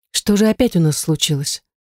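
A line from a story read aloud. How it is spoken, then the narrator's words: Weary sigh. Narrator (Russian): Устало вздыхаю я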